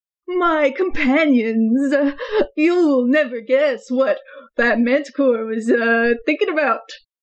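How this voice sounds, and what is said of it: Theatrical character voice. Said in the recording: “do a character voice.”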